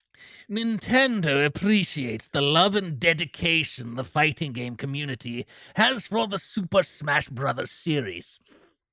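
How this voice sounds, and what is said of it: Exaggerated evil villain voice. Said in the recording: “We have to do an evil voice for this, right?”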